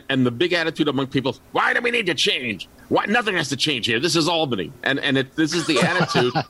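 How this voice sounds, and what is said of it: Mild New York City accent. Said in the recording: “I do have a somewhat New York City accent, although I've tried to get rid of it”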